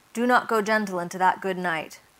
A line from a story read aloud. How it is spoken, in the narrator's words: they said